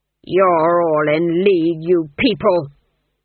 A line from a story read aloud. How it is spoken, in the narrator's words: the duke snarled